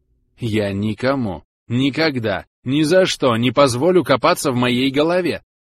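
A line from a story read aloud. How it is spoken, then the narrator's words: Hysterical shout. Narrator (Russian): выкрикнула Зара, сама чувствуя истерические нотки в своем голосе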